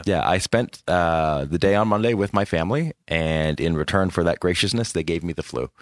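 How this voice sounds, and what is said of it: Sick-sounding voice. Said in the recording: “I'm sick... the sound of my voice may explain a little bit why it was late”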